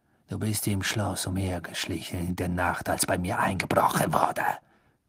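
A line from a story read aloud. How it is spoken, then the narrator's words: Hissed. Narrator (German): zischte Snape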